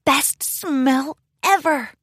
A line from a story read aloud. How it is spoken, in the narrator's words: whispered excitedly